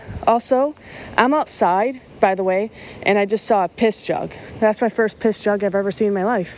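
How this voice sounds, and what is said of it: Out of breath while talking. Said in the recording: “why I sound out of breath. ... I'm just extremely out of shape”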